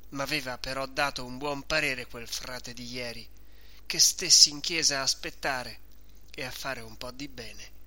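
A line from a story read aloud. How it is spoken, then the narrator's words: Sighing to himself. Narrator (Italian): dice tra sé, sospirando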